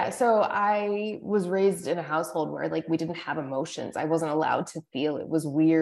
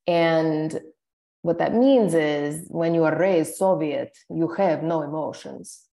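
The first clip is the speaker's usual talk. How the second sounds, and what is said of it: Unconvincing fake Russian accent. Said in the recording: “It doesn't even sound Russian. ... Yeah, that's a fake accent. ... with a Russian accent? ... It's the only accent that I can do”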